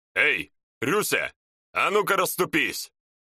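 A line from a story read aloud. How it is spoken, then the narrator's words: Barking shaman shout. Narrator (Russian): гаркнул шаман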